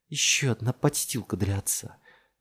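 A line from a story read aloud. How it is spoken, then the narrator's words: Hissed. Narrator (Russian): прошипела Джессика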